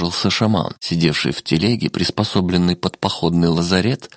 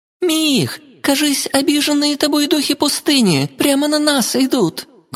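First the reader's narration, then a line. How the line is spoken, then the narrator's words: Loud distant yell. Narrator (Russian): громко заорала из тылового дозора Викаэль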